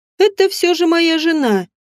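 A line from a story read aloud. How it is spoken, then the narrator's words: Mocking reply. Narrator (Russian): насмешливо ответил Эрис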